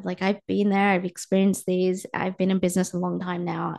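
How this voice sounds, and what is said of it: Slightly sore voice. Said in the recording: “My voice is a little bit sore. I think I need to drink some more water today. I feel like I'm dehydrated”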